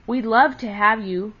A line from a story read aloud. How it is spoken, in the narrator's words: cried Happy Jack